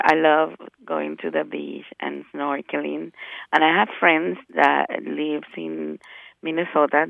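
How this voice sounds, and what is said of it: Spanish-accented English. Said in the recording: “my first language is Spanish, just in case you notice an accent.”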